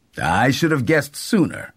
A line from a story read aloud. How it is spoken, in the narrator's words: said Mr